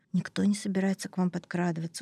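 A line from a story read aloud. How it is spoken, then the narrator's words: Tired. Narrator (Russian): устало сказал Меллер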